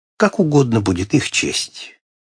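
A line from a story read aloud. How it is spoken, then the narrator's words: Calm reply. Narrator (Russian): спокойно ответил мне своей обычной фразой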